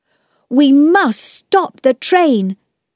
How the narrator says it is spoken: Peter shouted

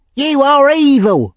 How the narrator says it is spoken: shouted Charlie Bates

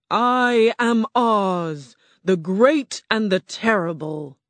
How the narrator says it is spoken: the ball of fire roared

